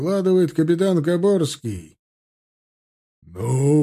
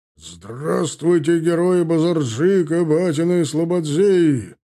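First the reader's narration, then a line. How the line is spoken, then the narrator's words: Loud bark. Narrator (Russian): Гаркнул он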